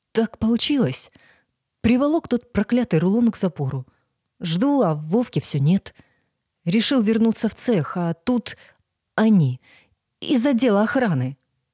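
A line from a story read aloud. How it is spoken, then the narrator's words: Quiet fatherly voice. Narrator (Russian): тихо говорил отец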